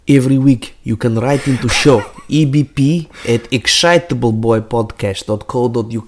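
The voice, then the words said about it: Anxious Russian accent impression. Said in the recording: “accent, an impression ... anxious Russian”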